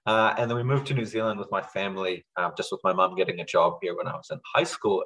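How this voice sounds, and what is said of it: North American accent. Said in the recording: “we moved to Canada. That's where I picked up this accent. And that's why I sound like this... who sounds like an American?”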